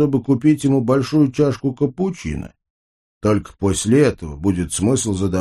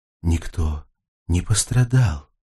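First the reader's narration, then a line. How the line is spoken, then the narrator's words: Quiet muttering. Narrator (Russian): тихо пробормотал Альберт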